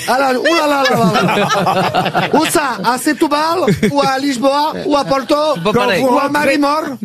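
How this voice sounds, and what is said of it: Put-on Portuguese accent in French. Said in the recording (French): “réputée pour imiter souvent l'accent portugais”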